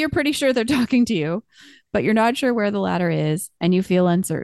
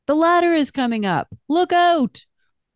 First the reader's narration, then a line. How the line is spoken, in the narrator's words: The person yells